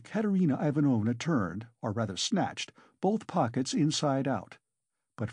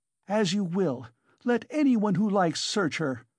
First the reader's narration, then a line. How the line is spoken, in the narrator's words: cried Katerina Ivanovna